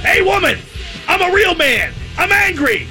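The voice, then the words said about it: Angry Mr. T impression. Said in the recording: “Richard Sherman is always imitating Mr. T in Rocky III.”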